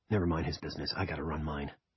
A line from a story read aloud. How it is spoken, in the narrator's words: he said in a low voice